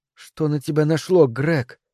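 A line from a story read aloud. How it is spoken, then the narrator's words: Quiet disbelieving question. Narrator (Russian): тихо, как будто не веря самой себе, спросила она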